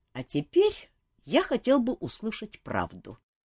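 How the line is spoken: Calmer declaration. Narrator (Russian): уже более спокойно заявил он

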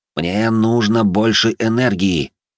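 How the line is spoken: Strained, choked wheeze. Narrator (Russian): Сдавленно просипел я, когда понял, что текущего баланса недостаточно для реализации идеи

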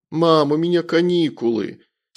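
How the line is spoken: Sulky boyish grumble. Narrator (Russian): с видом обиженного мальчишки проворчал

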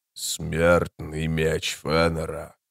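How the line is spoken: Quiet low voice. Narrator (Russian): сказал он по-эллински тихим низким голосом

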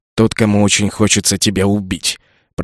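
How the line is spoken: Growling. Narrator (Russian): прорычал я

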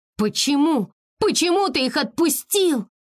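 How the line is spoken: Desperate shout. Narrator (Russian): с отчаянием закричала Текно

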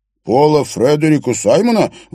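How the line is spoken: Exclaimed. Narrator (Russian): воскликнул Бёрн

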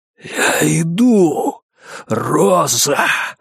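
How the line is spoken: Exhaled. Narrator (Russian): выдохнул он

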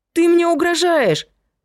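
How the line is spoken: Shrill squeal. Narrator (Russian): взвизгнула Вера

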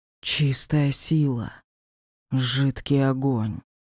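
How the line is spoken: Whisper. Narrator (Russian): прошептал

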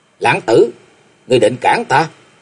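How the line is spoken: Furious gritted question. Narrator (Vietnamese): Lâm Lâm mắt nảy lửa gằn giọng hỏi

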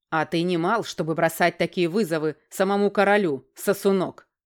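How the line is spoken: Barking roar. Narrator (Russian): рявкнул Вебранд Первый Винтер

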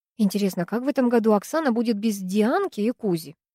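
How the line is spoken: Snide question. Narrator (Russian): ехидно спросила Третьякова

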